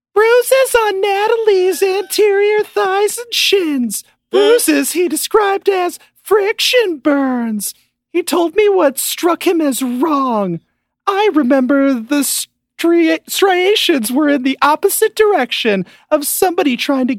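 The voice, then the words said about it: Imitates another person's voice. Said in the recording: “I'm going to do my best Lana impression.”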